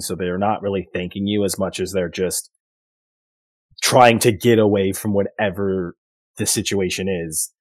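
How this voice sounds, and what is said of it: Hoarse, voice giving out. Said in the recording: “losing my voice a bit there”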